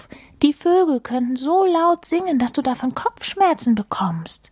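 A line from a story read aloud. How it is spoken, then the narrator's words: Calling out. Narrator (German): rief Maulwurf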